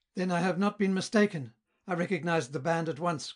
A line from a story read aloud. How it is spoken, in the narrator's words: cried Wilhelm